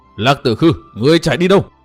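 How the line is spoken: Choked furious echoing shout. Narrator (Vietnamese): Chàng uất hận đến nghẹn họng, hét vang cả núi rừng

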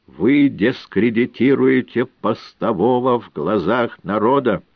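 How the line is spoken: Menacing. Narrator (Russian): грозно сказали мне

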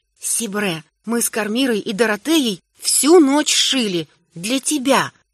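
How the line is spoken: Quiet proud whisper. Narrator (Russian): тихонько, но с гордостью шепнула мама

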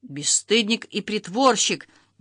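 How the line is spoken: Furious bark. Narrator (Russian): неистово рявкнул Дмитрий Федорович

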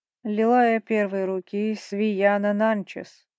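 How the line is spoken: Deep-voiced proclamation. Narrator (Russian): провозгласил басом первый магистр

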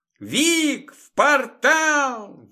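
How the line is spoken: Shouted. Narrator (Russian): выкрикнула Вероника

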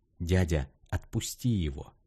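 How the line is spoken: Whispering. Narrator (Russian): прошептал он

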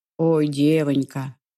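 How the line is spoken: Sad sigh, grey-haired man. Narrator (Russian): печально вздохнул седой

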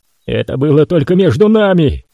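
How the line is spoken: Unthinking roar. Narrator (Russian): проревел он, не осознавая своих слов

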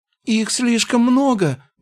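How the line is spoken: Sudden trembling wail. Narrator (Russian): вдруг взвыл щуплый маг, его голос дрожал

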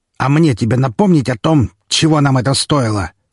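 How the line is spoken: Harsher questioning tone. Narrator (Russian): более жестким тоном спросил в ответ Распутин

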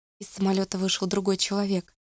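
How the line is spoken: Quiet woman. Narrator (Russian): тихо ответила она

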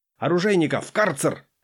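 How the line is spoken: Barked command. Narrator (Russian): гаркнул

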